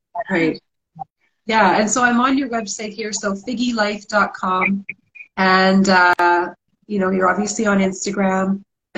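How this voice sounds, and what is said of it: Strained, failing voice. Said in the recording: “I'm losing my voice here”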